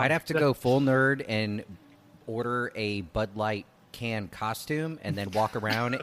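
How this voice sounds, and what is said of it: Usual voice. Nothing is said of it.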